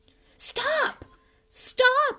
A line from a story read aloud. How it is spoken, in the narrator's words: screamed Lockhart